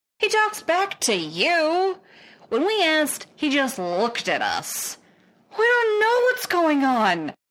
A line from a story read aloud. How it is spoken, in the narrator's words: the lieutenant wails